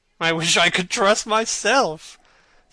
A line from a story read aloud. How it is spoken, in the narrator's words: said Lord Henry, laughing